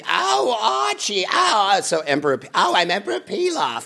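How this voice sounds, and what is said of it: Imitates Edith Bunker's voice. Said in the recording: “my best imitation of Edith Bunker from All in the Family ... I sound nothing like Edith Bunker, but it sounds perfectly like Emperor Pilaf”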